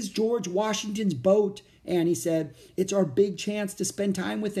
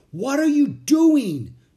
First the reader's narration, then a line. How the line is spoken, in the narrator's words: Jack shouted